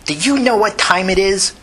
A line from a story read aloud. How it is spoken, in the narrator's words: angrily